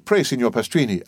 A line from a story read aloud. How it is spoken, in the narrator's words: asked Franz